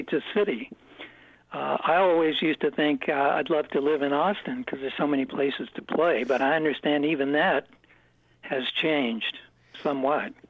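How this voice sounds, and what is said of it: Hoarse, strained voice. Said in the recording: “I'm just kind of losing my voice”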